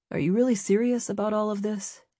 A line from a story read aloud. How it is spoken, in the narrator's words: He said quietly